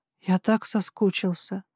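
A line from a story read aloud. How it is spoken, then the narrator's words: Whisper. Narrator (Russian): прошептал Эдвилл мне в губы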